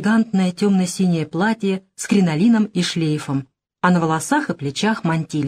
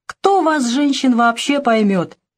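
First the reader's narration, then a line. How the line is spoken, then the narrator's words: Laughing. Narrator (Russian): рассмеялся родитель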